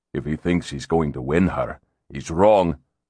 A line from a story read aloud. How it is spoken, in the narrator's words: Ramsay said quietly